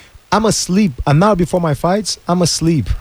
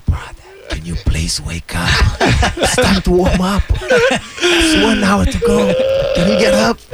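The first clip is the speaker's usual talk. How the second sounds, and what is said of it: Whispering. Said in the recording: “whisper”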